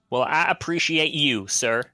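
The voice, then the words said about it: Good put-on American accent. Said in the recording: “I liked his American accent. That was very good right there at the end.”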